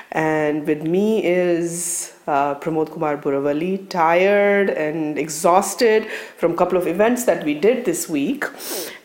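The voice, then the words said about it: Raspy voice. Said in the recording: “apologize for my voice, for my raspy voice”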